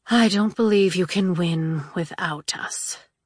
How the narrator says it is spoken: sighed the Maiden Death

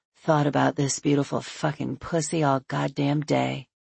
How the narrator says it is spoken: mutters

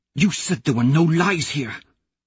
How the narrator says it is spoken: Mustang hisses

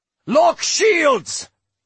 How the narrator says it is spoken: Droy thundered

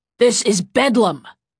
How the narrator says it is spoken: Tuve growled

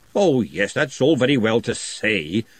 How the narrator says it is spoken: Glenda snapped

